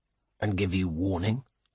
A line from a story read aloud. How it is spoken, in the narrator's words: he mutters